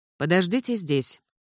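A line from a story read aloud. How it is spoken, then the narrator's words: Indifferent command. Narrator (Russian): безразличным тоном велели ей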